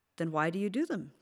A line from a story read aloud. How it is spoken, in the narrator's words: Katie asked